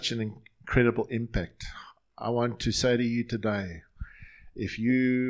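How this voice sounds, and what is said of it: Usual voice. Nothing is said of it.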